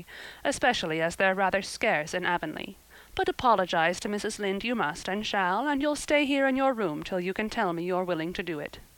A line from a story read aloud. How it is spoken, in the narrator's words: said Marilla dryly